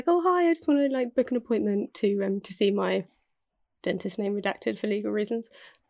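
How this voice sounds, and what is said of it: Polite, put-on telephone voice. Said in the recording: “I put on my lovely phone voice, which is very different from the voice that I use on a daily basis.”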